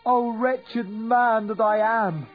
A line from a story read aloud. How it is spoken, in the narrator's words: he cried